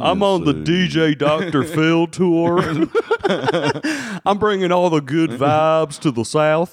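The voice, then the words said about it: Deep put-on Southern accent. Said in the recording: “doing this deep Southern voice, this exact style of Southern accent”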